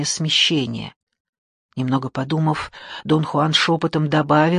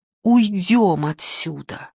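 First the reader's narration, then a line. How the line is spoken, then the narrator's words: Pleading. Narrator (Russian): взмолился я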